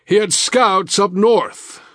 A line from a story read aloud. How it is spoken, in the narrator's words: Wold roared back